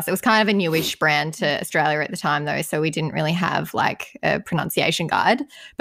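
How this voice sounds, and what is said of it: Australian accent. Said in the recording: “our Aussie accent”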